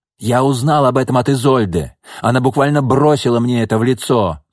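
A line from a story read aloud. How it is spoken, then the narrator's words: Shouting. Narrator (Russian): крикнул Иван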